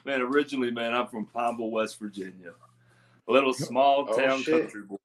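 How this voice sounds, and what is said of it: Country accent. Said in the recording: “It might be my accent, man ... it sounds country to me”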